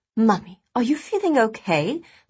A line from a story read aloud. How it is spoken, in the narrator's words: Felicity asked in a worried tone